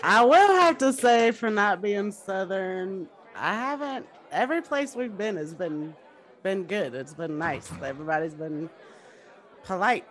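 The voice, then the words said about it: Twangy American accent. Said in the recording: “you got a twang, girl. You got a twang.”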